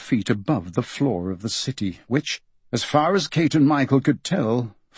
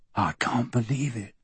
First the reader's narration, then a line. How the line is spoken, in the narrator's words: Michael whispered